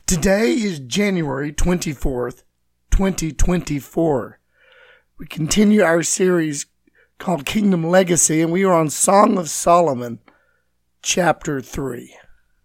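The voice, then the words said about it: Raspy, raw voice. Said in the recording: “my voice is still very raspy and very raw from all the dust storms and sinus and throat issues”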